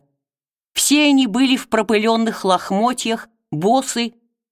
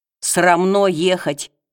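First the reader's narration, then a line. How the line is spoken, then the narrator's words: Grumbling. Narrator (Russian): ворчали иные из них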